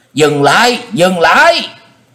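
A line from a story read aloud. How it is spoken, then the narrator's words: Screaming. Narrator (Vietnamese): Một tiếng thét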